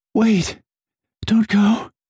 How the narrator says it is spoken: Kiara panted

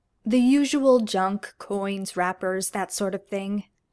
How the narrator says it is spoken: Lestrade says

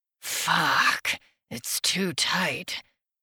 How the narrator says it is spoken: I muttered against her shoulder

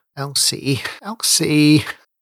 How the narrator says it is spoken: he moaned against his yellowed knuckles

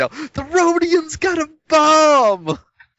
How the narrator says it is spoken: I was going to yell

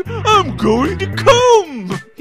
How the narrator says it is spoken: He gasped

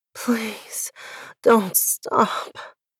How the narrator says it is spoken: I gasp

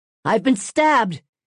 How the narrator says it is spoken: he cried out

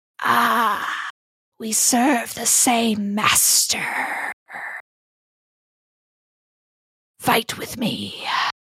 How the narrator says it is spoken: you hear this raspy voice say

